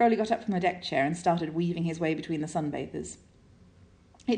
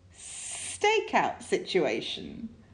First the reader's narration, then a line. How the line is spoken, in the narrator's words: said Crowley, hissing slightly